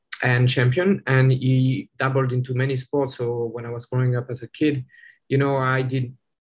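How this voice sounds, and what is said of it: French accent. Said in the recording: “you might be able to tell from the accent that I'm not from the US originally. I'm actually French.”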